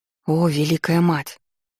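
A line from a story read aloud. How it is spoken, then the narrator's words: Breathed out. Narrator (Russian): выдохнула я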